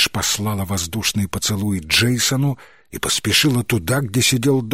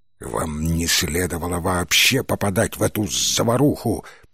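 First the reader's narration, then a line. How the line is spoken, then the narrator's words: Growl. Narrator (Russian): прорычал Баркер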